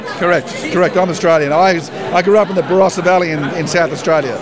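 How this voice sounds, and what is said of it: Australian accent. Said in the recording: “I'm detecting accent, and I'm going to guess Australian”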